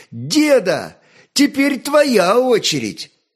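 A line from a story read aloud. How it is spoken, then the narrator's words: Breathless happy playful shout. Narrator (Russian): Нарезвившись и напрыгавшись вдоволь, Святослав, запыхавшийся и счастливый, задорно выкрикнул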